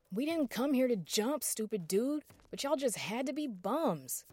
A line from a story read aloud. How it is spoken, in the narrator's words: yelled, lashing out